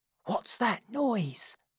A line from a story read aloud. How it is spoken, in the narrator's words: whispered Toby